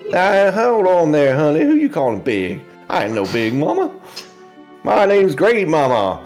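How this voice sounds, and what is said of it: Character voice with odd accent. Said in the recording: “I don't know what this accent is”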